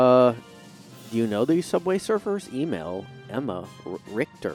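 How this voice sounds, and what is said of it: Usual voice. Nothing is said of it.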